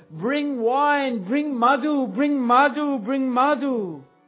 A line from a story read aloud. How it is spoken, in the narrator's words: As if wild with intoxication, he called out